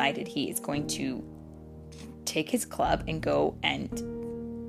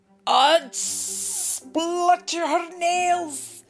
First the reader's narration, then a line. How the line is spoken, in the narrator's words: he cried, astonished